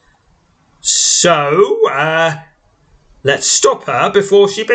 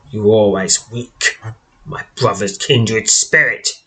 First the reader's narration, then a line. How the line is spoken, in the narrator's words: she hisses